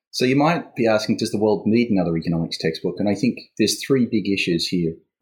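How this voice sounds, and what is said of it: Australian accent. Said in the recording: “the one with the Australian accent is”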